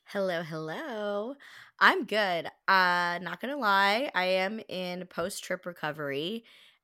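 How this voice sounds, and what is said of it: Raspy, partly lost voice. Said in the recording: “they might sense a shift in my voice, a little raspier, a little Sophia Bush today ... lost your voice a little bit”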